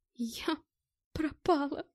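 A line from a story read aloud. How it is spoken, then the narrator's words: Sobbing. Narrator (Russian): Стала всхлипывать Мэтт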